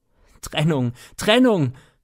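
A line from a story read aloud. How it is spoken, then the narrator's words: Wild desperate shouting. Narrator (German): schrie er ganz wild und verzweifelt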